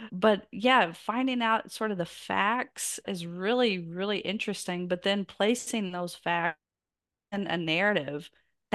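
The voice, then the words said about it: Southern American accent. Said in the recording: “I'm from the South and my accent gives me away”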